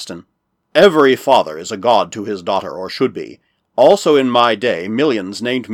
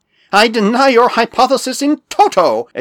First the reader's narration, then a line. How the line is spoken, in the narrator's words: exclaimed Bickley